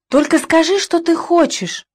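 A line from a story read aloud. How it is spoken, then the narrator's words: Eager exclamation. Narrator (Russian): воскликнул 44-й, жаждавший мне помочь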